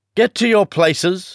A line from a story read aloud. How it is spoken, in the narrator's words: shouted the Queen in a voice of thunder